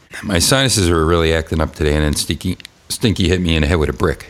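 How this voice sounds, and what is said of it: Stuffy, congested voice. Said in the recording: “I sound a little stuffy”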